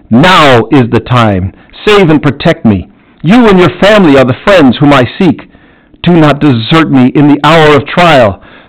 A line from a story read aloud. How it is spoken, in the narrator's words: I had not a moment to lose, I cried